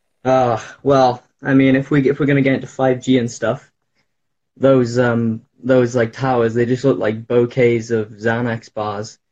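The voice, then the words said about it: Welsh accent. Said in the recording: “I'm uh, from Wales. ... I could hear it. Your accent is awesome.”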